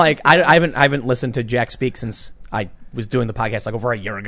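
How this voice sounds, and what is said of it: Usual voice. Nothing is said of it.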